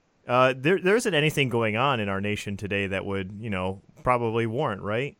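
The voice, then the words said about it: Sarcastic delivery. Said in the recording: “I was being sarcastic. ... He was being sarcastic.”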